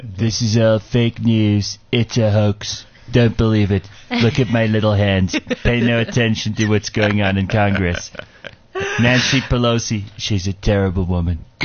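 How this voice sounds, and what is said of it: Donald Trump impression. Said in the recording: “do your Trump accent ... you have to say it with the Trump accent”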